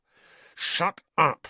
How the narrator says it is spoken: snapped Harry

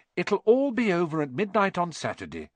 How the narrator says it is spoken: said Hermione

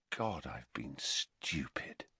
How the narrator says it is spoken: he said quietly

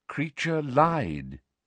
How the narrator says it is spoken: said Dumbledore calmly

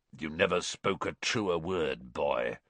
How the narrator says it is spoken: someone muttered dryly to Dumbledore behind Harry

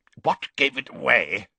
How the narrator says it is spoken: he grunted

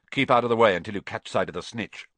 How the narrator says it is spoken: Wood had said

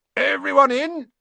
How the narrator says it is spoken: shouted Hagrid

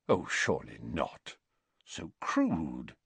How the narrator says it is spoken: Dumbledore said quietly

